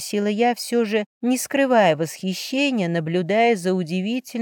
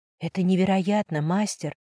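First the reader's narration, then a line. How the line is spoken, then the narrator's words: Whispered. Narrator (Russian): шептала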